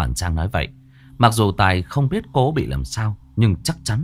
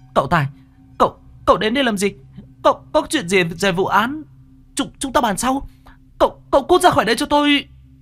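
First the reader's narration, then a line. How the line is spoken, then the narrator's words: Shouting. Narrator (Vietnamese): Cô hét lên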